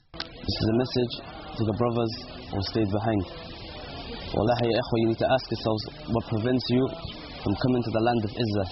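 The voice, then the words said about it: British accent. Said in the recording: “In a British accent”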